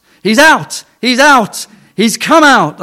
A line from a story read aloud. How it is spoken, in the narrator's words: cried, until they were all shouting and dancing up and down, hugging each other and crying